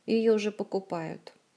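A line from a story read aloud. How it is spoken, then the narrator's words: Sad statement. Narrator (Russian): Также печально сообщила художница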